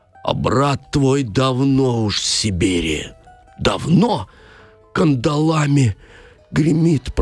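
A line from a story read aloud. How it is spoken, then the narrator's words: Suffering singing voice. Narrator (Russian): пропел он страдальческим голосом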